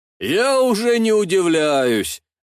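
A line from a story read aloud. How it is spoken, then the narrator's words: Laughing. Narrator (Russian): рассмеялся Алексей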